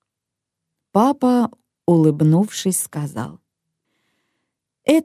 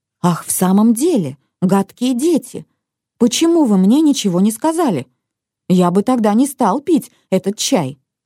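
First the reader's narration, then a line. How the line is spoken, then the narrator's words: Boss exclaiming. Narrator (Russian): папин начальник воскликнул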